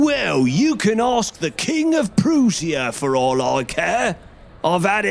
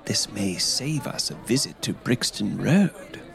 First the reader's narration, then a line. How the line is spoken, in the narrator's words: whispered Holmes